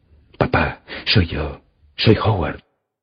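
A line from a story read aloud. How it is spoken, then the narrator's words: Whispering in ear. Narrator (Spanish): le susurré al oído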